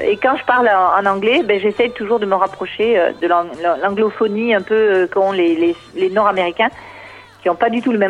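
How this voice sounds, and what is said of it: Catalan-accented French. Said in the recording (French): “avec mon accent catalan”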